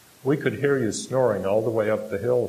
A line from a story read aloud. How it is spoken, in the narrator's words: she says